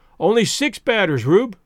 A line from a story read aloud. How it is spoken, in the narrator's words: called out Spears